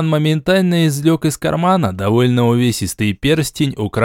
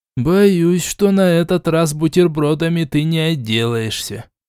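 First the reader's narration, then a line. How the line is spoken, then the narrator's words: Grumbling. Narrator (Russian): проворчал Шичерун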